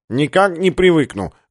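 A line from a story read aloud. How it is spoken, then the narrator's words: Nasal voice. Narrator (Russian): гнусаво объяснил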